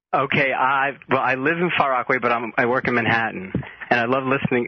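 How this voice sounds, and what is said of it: New York accent. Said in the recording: “we're digging the New York accent”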